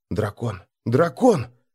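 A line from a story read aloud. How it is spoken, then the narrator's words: Crowd whispering. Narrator (Russian): зашептались нордлинги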